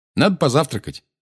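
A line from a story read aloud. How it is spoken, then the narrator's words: Brisk cheerful. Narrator (Russian): бодро сказал Гарри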